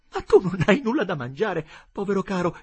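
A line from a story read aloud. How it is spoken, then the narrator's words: Tender compassionate exclamation. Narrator (Italian): esclamò con tenera compassione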